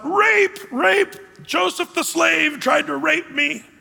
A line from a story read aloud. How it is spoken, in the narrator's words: yells out